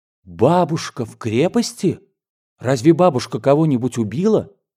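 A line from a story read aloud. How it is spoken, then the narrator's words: Horrified exclamation. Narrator (Russian): воскликнул с ужасом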